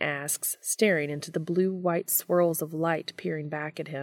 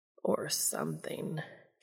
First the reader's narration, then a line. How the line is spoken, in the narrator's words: Castiel groans